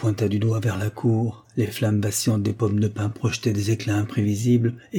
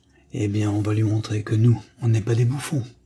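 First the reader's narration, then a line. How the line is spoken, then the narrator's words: Firm, excited voice. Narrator (French): répliqua-t-il d'une voix ferme, son sourire nerveux trahissant une excitation presque jubilatoire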